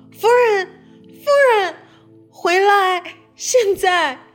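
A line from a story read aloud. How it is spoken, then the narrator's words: Shouting. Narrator (Chinese): 大声叫道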